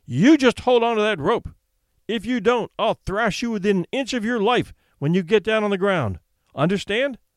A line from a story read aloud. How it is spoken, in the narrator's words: shouted sternly